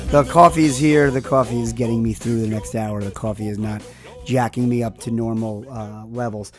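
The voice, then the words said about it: Tired, worn-out voice. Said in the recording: “As you can hear from my voice, we're not in a tip-top heat condition.”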